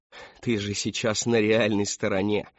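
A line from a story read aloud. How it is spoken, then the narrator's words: Chuckling. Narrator (Russian): хохотнул человек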